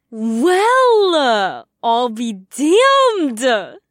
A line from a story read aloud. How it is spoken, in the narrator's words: She laughed obnoxiously loud